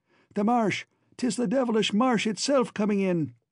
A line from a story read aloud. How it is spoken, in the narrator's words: Cullen cried out wildly